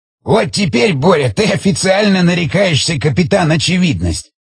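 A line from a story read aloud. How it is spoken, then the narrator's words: Laughing and coughing. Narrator (Russian): захохотал, кашляя Шестаков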